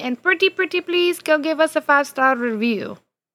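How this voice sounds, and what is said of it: Put-on unidentified accent. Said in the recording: “accent was that? ... Whichever accent”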